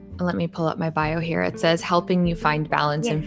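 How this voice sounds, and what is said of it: Calm, soothing meditative voice. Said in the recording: “it sounds like I'm listening to Headspace Anchor's voice. It's just so calming... It is so nice and calm to just listen in the night.”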